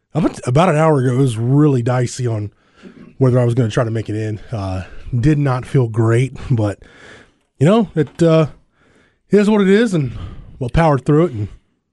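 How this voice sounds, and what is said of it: Raspy, hoarse voice. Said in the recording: “as you can tell, my voice isn't great today ... just kind of struggling with the rasp ... It was way worse at about 6:30 this morning.”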